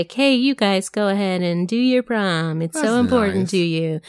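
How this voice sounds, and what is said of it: Imitates another person's voice. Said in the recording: “I was trying to do an impression.”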